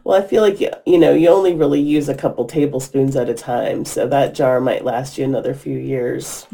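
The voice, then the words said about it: Creaky, squeaky voice. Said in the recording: “my creaky, squeaky voice”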